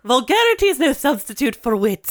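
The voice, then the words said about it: Imitates another person's voice. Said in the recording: “Maggie Smith in Downton Abbey”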